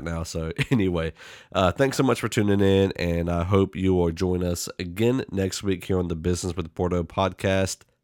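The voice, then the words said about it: Voice strained from affected vocal cords. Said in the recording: “apologize for my voice a little bit. This weather change has done something to my vocal box, my vocal cords”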